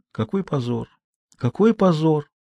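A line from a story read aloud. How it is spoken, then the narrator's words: Muttering mother. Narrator (Russian): пробормотала мама Жанна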